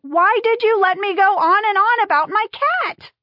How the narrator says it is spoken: Jenna yelled

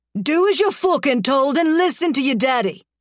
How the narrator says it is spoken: he barks

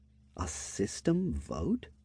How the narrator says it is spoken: I muttered to myself

